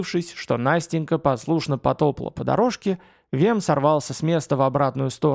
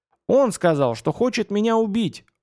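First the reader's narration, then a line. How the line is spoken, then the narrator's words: Yelling. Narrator (Russian): орал Родька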